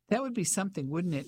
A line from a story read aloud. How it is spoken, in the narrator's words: he laughed